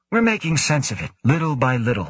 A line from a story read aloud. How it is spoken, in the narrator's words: Hideshi said